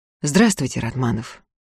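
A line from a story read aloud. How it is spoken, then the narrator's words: Low voice. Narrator (Russian): Закатов вполголоса сказал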